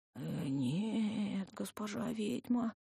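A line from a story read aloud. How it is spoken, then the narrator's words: Strained, teeth-chattering shepherd. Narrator (Russian): еле выдавил пастух, лязгая зубами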